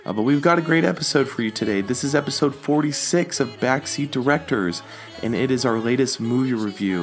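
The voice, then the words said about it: Raspy, froggy sick voice. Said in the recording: “my raspy, froggy throat voice ... I've been a little under the weather”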